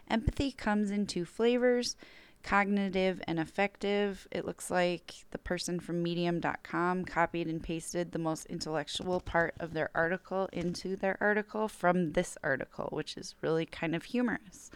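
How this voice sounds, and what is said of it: Strained, failing voice. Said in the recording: “I'm losing my voice already”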